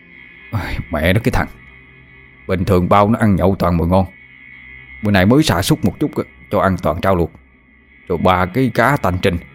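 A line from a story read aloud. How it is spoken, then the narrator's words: Muttering. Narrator (Vietnamese): Hắn lẩm bẩm trong miệng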